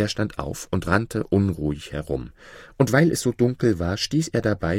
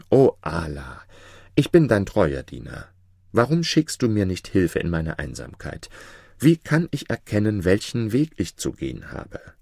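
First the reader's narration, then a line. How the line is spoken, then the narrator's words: Deep sigh, crying out. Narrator (German): seufzte tief und rief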